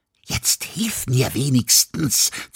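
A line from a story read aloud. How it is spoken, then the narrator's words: Hissed. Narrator (German): zischte Mia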